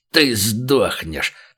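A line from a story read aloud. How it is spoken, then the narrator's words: Snarling, spitting. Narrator (Russian): прорычал тот, брызгая слюной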